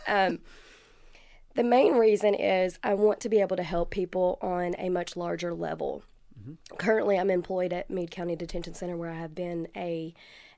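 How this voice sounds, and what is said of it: Voice strained from illness. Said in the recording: “I apologize for my voice. I've been sick for the last week.”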